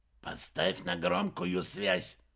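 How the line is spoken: Hissing. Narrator (Russian): прошипел Уэрба

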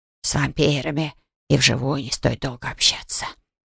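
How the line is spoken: Grumbling. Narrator (Russian): ворчал закруживший возле меня Грег

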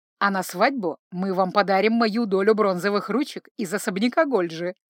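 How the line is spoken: Chuckle. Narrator (Russian): хохотнул Джанни

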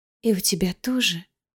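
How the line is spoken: Small voice whispering in ear. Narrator (Russian): прошептал ей на ухо тихий голосок

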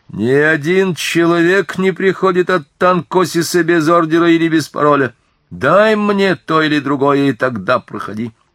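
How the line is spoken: Soldier shouting. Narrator (Russian): Солдат крикнул

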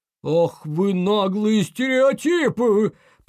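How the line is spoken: Bear growling. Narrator (Russian): прорычал медведь

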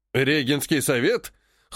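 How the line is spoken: Snorting. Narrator (Russian): хмыкнул Прохоров

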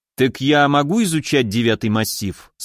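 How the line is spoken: Plain question. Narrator (Russian): спросил я

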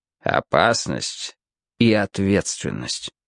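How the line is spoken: Tired summing up. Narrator (Russian): устало подвел итог цирюльник

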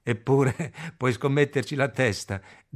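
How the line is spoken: Said laughing. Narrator (Italian): dice Crop ridendo

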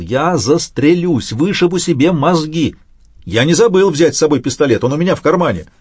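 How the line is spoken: Frantic shout. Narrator (Russian): От ее слез потеряв голову, закричал

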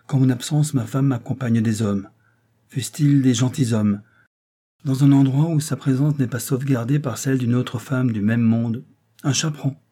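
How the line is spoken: Calmer tone. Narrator (French): dit-il d'un ton plus posé

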